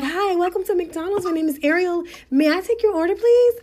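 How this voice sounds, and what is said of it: Put-on polite professional customer-service voice. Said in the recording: “I put on my voice, my airs, because I'm in a professional setting”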